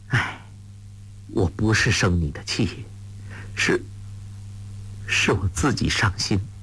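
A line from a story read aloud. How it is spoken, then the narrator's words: Sighing. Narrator (Chinese): 穆念慈叹道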